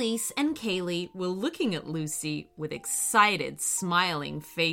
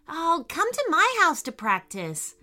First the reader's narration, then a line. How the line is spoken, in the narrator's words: Lucy said excitedly